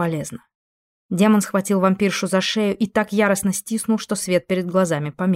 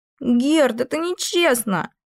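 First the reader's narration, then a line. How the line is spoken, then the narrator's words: Child's shriek. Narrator (Russian): взвизгнул ребенок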